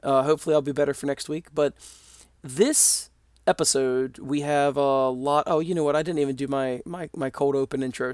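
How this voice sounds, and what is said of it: Slightly hoarse, froggy voice. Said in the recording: “my voice has a bit of a frog in it ... hear me with a little bit of a weird voice”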